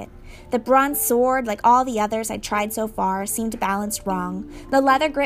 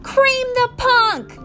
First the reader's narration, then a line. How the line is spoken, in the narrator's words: Clarice screamed